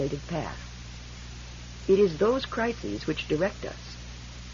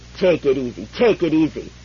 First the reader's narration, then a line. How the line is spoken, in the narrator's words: his father mimicked savagely